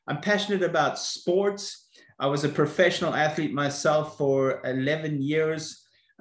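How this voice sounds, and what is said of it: South African accent. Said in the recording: “I was brought up in South Africa, so that's maybe where you can locate my accent.”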